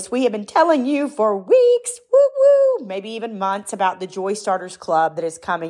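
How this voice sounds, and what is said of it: Congested, stuffed-up voice with excitement. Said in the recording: “my cold and stuffed up head right now ... hear the excitement in my voice”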